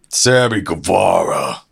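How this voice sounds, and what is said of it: Impression of Sammy Guevara. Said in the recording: “You can do the voice again.”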